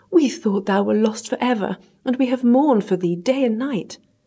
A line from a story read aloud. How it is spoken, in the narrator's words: cried the king